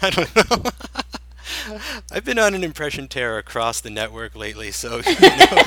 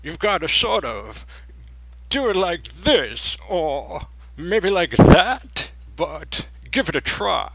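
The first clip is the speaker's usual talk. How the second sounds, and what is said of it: Imitates a film character's voice. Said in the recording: “my Frankenfurter impression”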